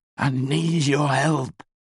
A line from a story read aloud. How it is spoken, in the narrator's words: he slurred